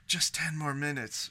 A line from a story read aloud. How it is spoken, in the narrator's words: she said, her voice husky